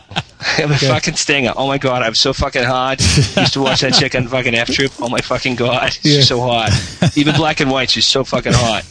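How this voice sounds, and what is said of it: Exaggerated Boston accent impersonation. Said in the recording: “That's how we would say it ... That's a good impersonation ... I'm from Boston”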